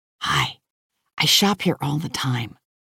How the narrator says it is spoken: I whisper

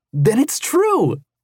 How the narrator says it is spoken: cried Yoel

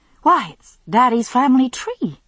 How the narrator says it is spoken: exclaimed

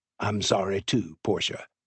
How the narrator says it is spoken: Lucian said softly

